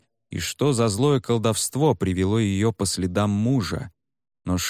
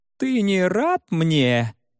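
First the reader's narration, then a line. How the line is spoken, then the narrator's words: Creaky, high, strange voice. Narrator (Russian): проскрипела она высоким чужим голосом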